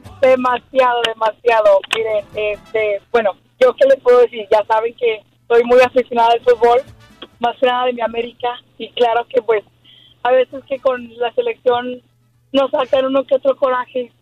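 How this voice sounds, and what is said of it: Hoarse, strained voice. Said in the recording (Spanish): “Andas afónica de tanto gritar ... Estoy afónica”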